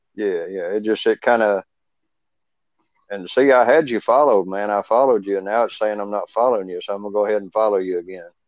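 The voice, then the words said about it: Slight Southern US accent. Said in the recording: “It sounds like you got a little southern accent. ... Yeah, man, I am in Kentucky.”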